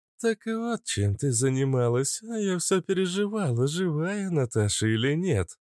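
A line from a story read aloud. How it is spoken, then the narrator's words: Laughing. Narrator (Russian): рассмеялась Кобра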